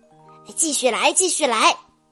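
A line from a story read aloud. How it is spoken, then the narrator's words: Excited shout. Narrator (Chinese): 兴致更高了，他喊道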